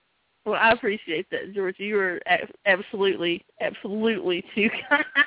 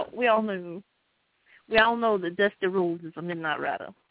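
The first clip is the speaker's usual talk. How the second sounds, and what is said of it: Dusty Rhodes impression. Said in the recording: “That's a really bad Dusty impersonation ... You did a good Dusty.”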